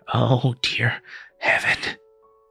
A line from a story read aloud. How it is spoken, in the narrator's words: the hunchback moaned